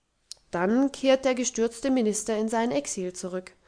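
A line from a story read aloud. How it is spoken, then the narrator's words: Dry remark. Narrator (German): bemerkte der Vater trocken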